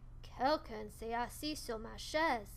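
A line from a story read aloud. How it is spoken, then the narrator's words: Bear grumbling. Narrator (French): a grogné Papa Ours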